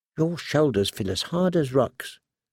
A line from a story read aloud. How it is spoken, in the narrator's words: she murmured